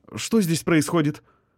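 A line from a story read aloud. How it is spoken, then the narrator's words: Shocked stammer. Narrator (Russian): пролепетала медсестра, потрясенно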